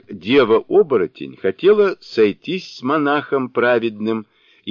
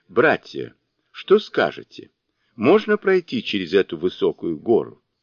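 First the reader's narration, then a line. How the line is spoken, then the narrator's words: Laughing. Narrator (Russian): Сунь-Укун, как обычно, рассмеялся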